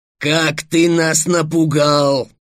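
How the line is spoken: Dragon's roar. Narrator (Russian): проревел оранжевый дракон

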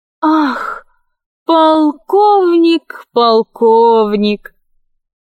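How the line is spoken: Unsteady utterance. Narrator (Russian): Неуверенно поднимаясь со стула, произнесла Кора

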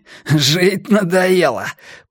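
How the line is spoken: Hoarse wheeze. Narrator (Russian): просипел

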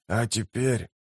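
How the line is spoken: Hoarse. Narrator (Russian): хрипло продолжил он

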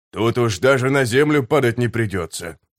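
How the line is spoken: Grumbling soldier. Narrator (Russian): проворчал сапер

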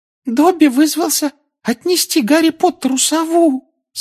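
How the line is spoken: Adoring squeak. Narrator (Russian): с обожанием на лице пропищал эльф

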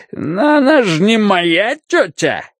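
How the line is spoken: Giggling like a schoolgirl. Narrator (Russian): хихикает, как школьница

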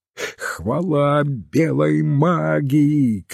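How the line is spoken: Shouting. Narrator (Russian): кричал он

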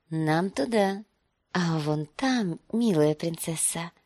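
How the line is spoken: Whisper. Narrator (Russian): прошептал он

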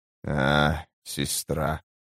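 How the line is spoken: Sigh. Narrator (Russian): вздохнул Тлен

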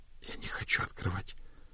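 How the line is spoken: Frightened whisper. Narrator (Russian): прошептала мгновенно побледневшая Приз

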